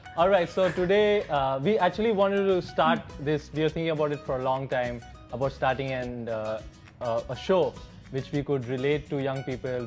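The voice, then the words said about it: Indian accent. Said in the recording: “I'm from India, so you can notice my accent is different.”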